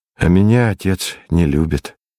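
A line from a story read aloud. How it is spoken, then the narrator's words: Sad. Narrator (Russian): сказал я грустно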